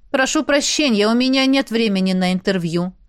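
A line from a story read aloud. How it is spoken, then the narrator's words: Even tone. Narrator (Russian): произнес ровным тоном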